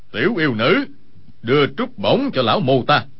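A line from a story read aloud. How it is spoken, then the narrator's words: Cold voice. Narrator (Vietnamese): chợt nghe một người lạnh lùng nói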